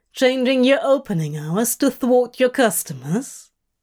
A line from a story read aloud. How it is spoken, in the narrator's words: Aziraphale scoffed